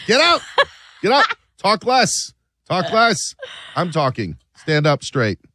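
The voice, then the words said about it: Imitates another person's voice. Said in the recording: “doing a bad Judge Judy impression.”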